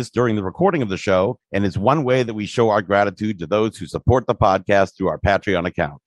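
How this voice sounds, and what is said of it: Midwestern American accent. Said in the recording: “It's my Midwestern accent”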